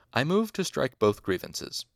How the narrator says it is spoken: Arwul said

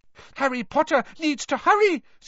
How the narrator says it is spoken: squeaked Dobby

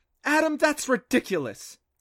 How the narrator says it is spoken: sputtered

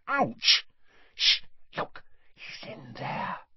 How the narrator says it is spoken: she breathed in Harry's ear

